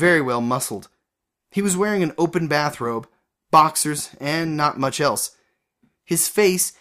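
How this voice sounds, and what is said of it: Usual voice. Nothing is said of it.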